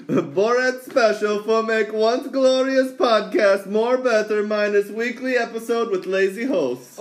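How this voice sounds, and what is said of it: Comic Borat-style put-on accent. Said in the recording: “You gotta say it with the accent ... You gotta do it in the voice, it's gonna sound terrible”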